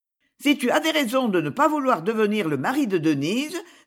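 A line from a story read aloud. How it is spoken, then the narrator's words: Curt. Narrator (French): dit-elle d'un ton sec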